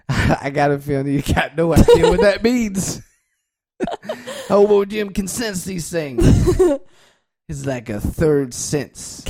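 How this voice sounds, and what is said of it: Slight Louisiana accent, character voice. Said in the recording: “your slight accent there, sir ... down Louisiana”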